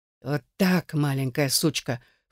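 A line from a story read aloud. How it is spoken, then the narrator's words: Hoarse wheeze. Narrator (Russian): хрипел он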